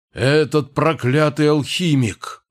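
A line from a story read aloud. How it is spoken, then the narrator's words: Angry growl. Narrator (Russian): зарычал он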